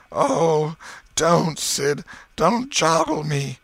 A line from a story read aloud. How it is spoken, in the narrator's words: Tom moaned out